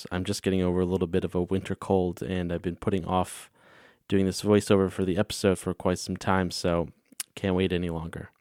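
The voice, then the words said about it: Slightly hoarse voice. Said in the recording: “sorry if my voice sounds a little hoarse.”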